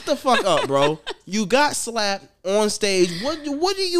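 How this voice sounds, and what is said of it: Usual voice. Nothing is said of it.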